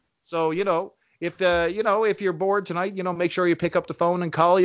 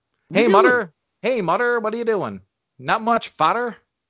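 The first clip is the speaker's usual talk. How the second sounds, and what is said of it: Exaggerated Newfoundland dialect. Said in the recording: “we have our own interesting dialect ... I'm probably butchering my own dialect here”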